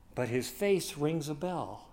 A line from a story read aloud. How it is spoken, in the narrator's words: the bishop sadly replied